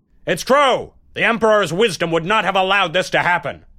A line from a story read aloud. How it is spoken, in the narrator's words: Someone dared to shout out loudly